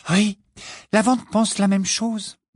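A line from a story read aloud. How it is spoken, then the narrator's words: Distressed tone. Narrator (French): dit-elle d'un ton affligé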